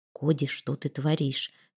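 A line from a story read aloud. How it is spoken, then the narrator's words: Whisper. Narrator (Russian): прошептал он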